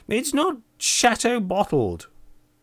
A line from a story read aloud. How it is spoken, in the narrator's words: exclaimed